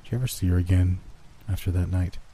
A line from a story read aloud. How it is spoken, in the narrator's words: He asked in a little more than a whisper